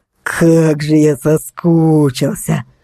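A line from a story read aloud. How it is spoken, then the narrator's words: Creaky voice. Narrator (Russian): проскрипел он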